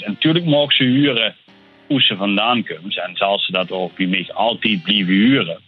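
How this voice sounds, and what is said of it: Polished southern Dutch accent. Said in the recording (Dutch): “een verzorgd zuidelijk accent, zeg maar ... soms denken lui wel eens dat, dat ik uit Brabant kom”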